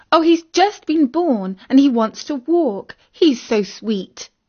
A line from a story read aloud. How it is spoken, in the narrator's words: exclaimed Isis